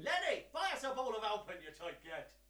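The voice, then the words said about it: Good put-on Irish accent. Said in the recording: “That was actually quite good... Does he do a good Irish impression?... He does a very good Irish impression.”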